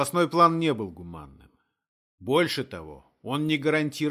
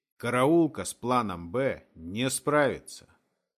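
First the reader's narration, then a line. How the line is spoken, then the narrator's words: Cold repetition. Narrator (Russian): повторил холодным тоном Юрген Греф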